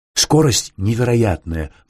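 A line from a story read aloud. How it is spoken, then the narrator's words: Excited storytelling. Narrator (Russian): взволнованно дорассказывал Сверчинский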